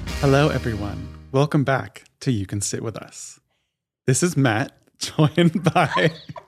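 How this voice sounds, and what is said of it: Public-radio announcer voice. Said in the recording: “Are we listening to NPR? I felt like I was listening to NPR. ... That was my NPR voice.”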